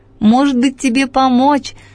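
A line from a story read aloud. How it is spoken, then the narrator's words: Shouted after someone. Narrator (Russian): прокричала мне вдогонку Яя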